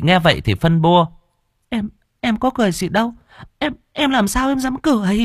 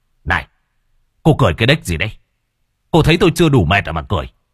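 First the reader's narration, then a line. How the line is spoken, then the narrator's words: Shout. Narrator (Vietnamese): gã quát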